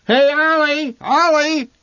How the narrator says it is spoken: the old man shouted

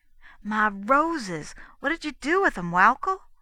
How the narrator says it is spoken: asked a trifle impatiently

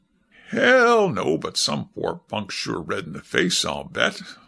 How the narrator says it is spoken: the man-about-town said with a chuckle

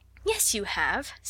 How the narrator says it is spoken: said Sarah cheerfully

